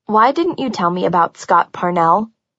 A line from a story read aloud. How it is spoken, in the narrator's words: I asked evenly